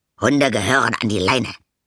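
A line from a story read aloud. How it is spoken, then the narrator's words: Growl. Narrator (German): knurrte er Lilly an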